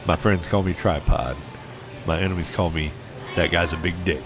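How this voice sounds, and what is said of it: Sexy seductive voice. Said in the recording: “going to the sexy voice”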